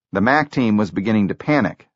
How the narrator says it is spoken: said Hertzfeld

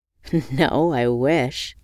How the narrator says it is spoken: scoffed

